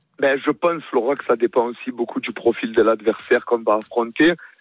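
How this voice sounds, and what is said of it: Slight southern French accent. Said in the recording (French): “un petit accent du Sud”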